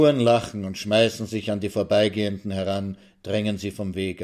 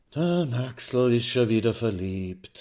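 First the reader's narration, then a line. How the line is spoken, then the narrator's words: Sighing. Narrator (German): seufzt die schwarze Hermine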